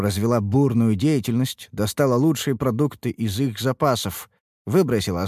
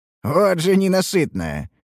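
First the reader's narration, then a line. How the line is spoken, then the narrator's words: Snorting. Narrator (Russian): хмыкнул Харан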